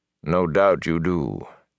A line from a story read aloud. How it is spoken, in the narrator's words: Tom said smoothly